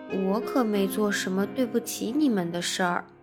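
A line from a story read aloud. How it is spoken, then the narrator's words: Soft. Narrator (Chinese): 吉姆轻声说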